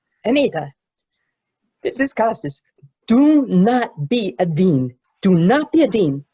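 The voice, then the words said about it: Imitates another person's voice. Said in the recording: “Lovely impersonation.”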